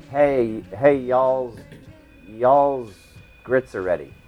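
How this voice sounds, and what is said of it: Put-on Southern American accent. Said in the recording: “We do Southern ... I want to hear your Southern ... American ... Southern American”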